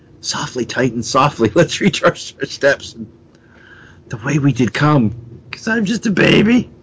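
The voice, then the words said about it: Whispering. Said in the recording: “He's whispering”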